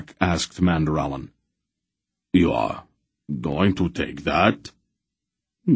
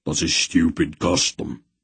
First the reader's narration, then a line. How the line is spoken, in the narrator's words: Beric grunted